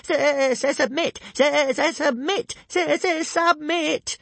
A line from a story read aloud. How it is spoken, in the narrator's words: at the top of his voice